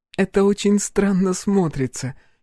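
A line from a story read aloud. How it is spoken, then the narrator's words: Giggling. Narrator (Russian): хихикнула Аша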